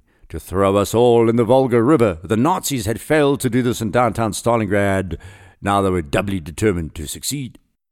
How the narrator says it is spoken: Smektarov commented grimly

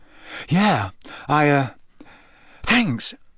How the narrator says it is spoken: said Harry weakly

